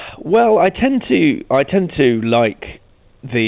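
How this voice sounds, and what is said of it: Usual voice. Nothing is said of it.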